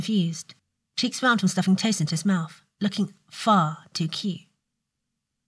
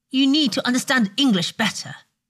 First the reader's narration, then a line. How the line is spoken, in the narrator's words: Draco snapped